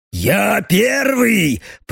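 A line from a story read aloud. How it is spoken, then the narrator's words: Man growling from above. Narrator (Russian): прорычал мужик сверху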